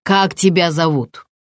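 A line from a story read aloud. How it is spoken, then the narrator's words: Harsher questioning tone. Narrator (Russian): спросил человек более жестким тоном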